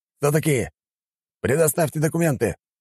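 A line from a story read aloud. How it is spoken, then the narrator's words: Shouted. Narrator (Russian): прокричал один из них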